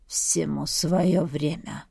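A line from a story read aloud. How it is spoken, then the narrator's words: Hoarse utterance. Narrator (Russian): хрипло вымолвил хан Арслан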